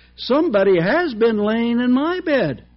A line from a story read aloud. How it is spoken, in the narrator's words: the middle-sized bear in her middle voice said